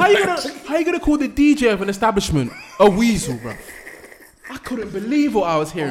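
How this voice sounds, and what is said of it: Usual voice. Nothing is said of it.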